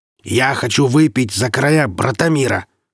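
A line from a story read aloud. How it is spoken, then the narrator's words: Barking merchant. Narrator (Russian): рявкнул купец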